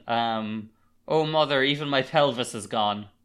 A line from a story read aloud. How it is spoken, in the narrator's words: Wukong shouts out again